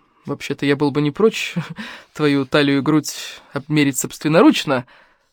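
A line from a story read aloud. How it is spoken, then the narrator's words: Smirking snort. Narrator (Russian): хмыкнул Илья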